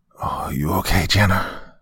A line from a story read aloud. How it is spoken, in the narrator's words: I croaked as I tried to get up